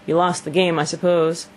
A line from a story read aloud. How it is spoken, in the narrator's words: said Mr